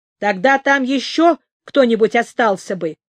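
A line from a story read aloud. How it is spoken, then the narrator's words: Angry reply. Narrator (Russian): сердито отвечал Шишак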